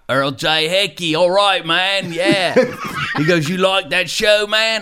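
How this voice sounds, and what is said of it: Bad put-on Australian accent. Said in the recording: “I'm going to do a terrible Australian accent”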